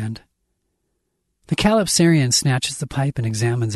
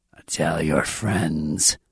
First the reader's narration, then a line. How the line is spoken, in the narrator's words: it rasps